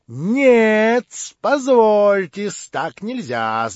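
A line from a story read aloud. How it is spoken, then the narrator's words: Shout. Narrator (Russian): закричал Лебедев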